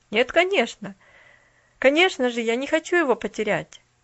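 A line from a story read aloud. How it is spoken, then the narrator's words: Calm, smiling. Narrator (Russian): улыбнулся в ответ Джимми спокойно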